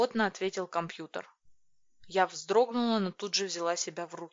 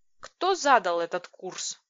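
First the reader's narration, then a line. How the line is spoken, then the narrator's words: Growling. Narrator (Russian): прорычала я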